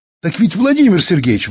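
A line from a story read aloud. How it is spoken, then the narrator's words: Cheerful exclamation. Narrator (Russian): воскликнул веселый Костя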